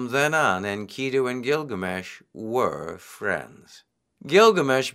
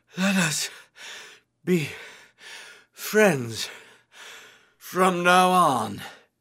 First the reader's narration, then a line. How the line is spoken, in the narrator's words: He gasped out